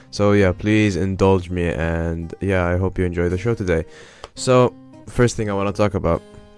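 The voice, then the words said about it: Weird, sore-throated voice. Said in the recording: “if I sound really weird, but my throat has ... 嗓子疼”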